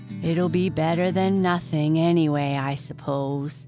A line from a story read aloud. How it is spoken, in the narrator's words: said Jack gloomily